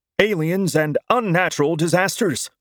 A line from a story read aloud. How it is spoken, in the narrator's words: the newscaster yelled in a feverish tone